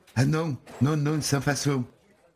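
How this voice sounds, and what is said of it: Slight southern French accent. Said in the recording (French): “vous avez un petit accent. Vous êtes du Midi ?”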